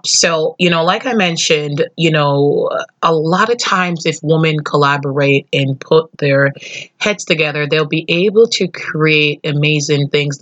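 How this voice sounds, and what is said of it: Scratchy voice. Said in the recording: “I'm still getting over a cold, so my voice is a little scratchy”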